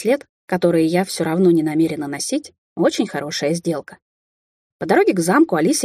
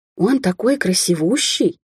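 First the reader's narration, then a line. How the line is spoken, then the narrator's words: Awed whisper. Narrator (Russian): потрясенно прошептала Алисия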